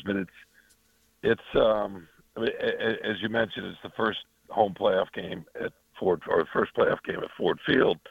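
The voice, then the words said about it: Raspy voice. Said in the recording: “excuse my voice here. Just kind of getting over a cold. Hope the raspiness is not too hard on your ears.”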